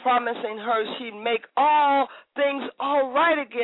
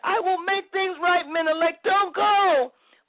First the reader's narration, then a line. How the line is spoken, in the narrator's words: she screamed